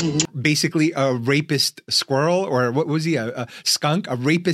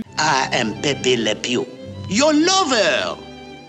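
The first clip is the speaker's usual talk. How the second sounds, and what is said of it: Cartoon French accent impression. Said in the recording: “the only French accent I do is Pepe Le Pew ... my one French impression”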